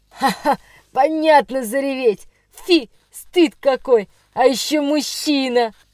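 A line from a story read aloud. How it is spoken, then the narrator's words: Guffawed. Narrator (Russian): захохотал третий Петр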